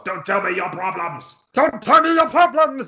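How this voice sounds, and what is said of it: Weird Muppet-like voice. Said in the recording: “In his weird Muppet voice”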